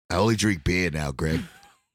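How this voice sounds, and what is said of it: Put-on Boston accent. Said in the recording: “How do you have an accent?”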